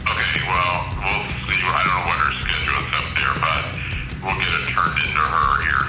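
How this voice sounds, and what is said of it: Beautiful deep low male voice. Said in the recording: “what a deep voice. What a beautiful, deep voice. That guy's got a real low larynx”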